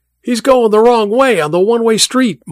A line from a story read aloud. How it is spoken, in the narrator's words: Mike shouted, both into the radio and at the others in the car